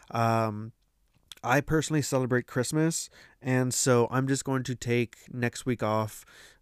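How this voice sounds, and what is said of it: Congested, slightly odd-sounding voice. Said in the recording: “if my voice sounds a little weird, it's because my allergies have been acting up. And so my nose has just been kind of off and on ... my voice sounds a little weird today”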